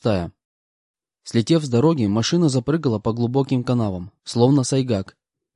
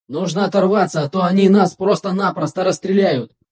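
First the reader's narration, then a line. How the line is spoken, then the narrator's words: Shout. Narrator (Russian): крикнул Один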